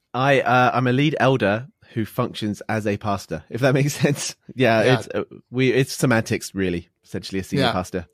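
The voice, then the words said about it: British accent. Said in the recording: “He's got a British accent, so you'll be able to distinguish him a little bit.”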